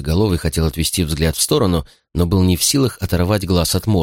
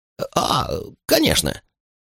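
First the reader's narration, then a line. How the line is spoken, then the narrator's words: Gasping, strained. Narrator (Russian): Яйцеголовый глотнул воздух широко открытым ртом, с трудом выдавив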